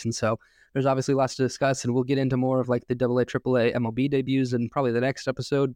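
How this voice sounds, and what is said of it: Slightly congested voice from a cold. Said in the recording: “I'm still, you probably hear it in my voice a little bit, just getting over a bit of a cold.”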